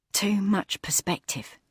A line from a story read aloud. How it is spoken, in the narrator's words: she whispered to herself